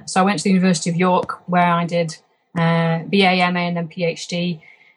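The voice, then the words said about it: Lancashire accent with Yorkshire tinge. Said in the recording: “my Lancashire accent has been tinged by some Yorkshire overtones”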